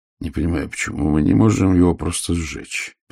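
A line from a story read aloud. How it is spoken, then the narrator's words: Grumbling. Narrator (Russian): проворчал Ваймс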